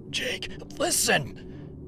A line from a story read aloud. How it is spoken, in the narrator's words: I gasped